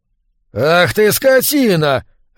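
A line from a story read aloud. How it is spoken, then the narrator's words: Barking man. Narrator (Russian): рявкнул мужчина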